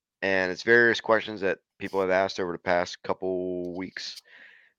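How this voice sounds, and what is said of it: Voice sounds off, unwell. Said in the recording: “I apologize for my voice”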